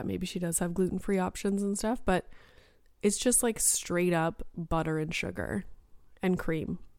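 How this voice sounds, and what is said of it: Hoarse, fading voice. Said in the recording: “I'm losing my voice again”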